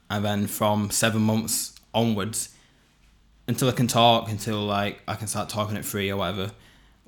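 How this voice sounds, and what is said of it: Northern English accent. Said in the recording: “I move to Bolton ... all that northernness ... that's why I have this accent”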